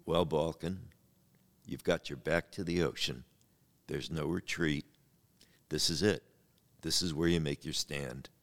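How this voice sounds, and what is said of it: Deep baritone Marlon Brando voice. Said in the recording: “In your Marlon Brando voice. ... I said it in my deepest baritone”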